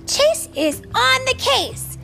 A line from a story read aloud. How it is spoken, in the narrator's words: the pup police exclaimed